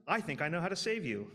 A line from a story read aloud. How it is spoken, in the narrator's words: shouted